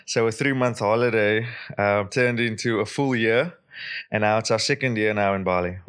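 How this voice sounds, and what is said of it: South African accent. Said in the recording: “I couldn't understand your accent.”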